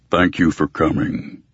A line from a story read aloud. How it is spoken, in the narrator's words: River Shoulders rumbled